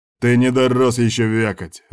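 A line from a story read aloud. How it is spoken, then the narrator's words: Bark. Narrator (Russian): рявкнул Миллиган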